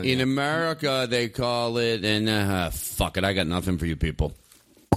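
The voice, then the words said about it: Comic Russian accent impression. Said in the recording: “hilarious Russian accent? ... I do an impersonation of him of his last day on stage”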